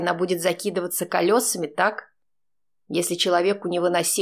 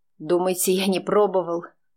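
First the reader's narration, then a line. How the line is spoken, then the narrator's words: Angry question. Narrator (Russian): зло спросил Олег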